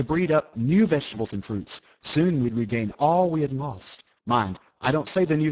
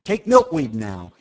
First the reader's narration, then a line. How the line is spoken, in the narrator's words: he cried